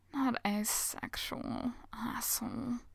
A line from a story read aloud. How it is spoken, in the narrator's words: Ryu mumbles